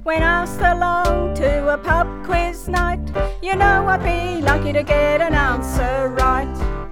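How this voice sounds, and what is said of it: Australian accent. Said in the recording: “I speak the Queen's English 100%, mess it up a bit with my Aussie accent.”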